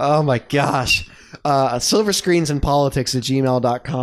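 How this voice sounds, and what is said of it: Usual voice. Nothing is said of it.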